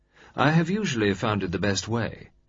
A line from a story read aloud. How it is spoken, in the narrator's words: said the other, a little grimly